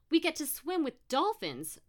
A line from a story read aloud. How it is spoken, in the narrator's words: Brooke exclaimed